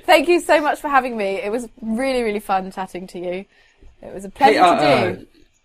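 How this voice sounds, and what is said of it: Posh British accent. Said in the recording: “someone from the UK, from Britain, with your perfect posh accent”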